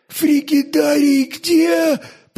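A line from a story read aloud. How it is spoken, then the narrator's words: Hoarse, scalded groan. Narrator (Russian): простонал он чужим ошпаренным горлом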